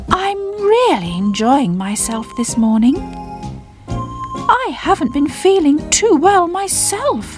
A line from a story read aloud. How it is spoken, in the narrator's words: said Bubble rather sadly